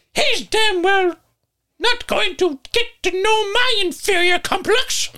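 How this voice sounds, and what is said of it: High-pitched character voice. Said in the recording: “I think I changed his voice ... my thing is just high-pitched”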